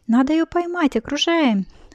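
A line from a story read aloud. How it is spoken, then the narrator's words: Boys shouting excitedly. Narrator (Russian): взволнованно закричали мальчики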